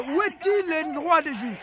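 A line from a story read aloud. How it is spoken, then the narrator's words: Shouted by several people. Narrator (French): ils criaient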